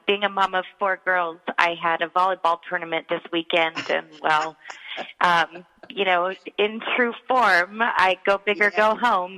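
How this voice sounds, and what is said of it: Hoarse, strained voice. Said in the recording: “I sound so hoarse this morning ... we were screaming at the top of our lungs”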